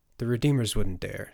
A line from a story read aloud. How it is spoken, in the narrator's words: Turner said